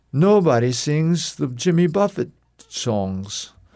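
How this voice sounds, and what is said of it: Imitated German accent. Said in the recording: “He was German. ... I was trying to figure out what kind of accent you were emulating.”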